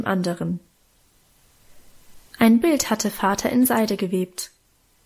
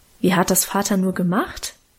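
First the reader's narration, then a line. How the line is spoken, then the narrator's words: Plain. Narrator (German): fragte ich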